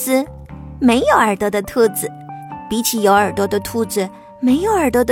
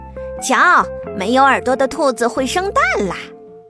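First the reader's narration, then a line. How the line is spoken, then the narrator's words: Mocking, laughing. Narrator (Chinese): 其他的兔子都笑他，说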